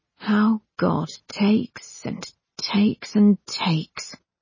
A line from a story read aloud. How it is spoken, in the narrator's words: he said quietly